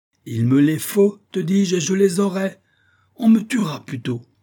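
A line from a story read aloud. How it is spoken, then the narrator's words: Howl. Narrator (French): hurla Isaac Hakkabut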